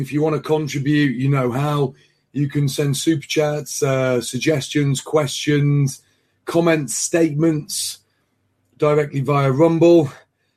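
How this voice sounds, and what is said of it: Hoarse, tired voice. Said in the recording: “I probably sound very, very hoarse. ... you've lost your voice on Friday evening ... It just got worse as the days went on.”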